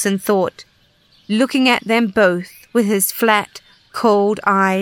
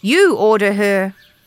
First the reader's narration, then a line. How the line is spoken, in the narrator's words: said Macoma coldly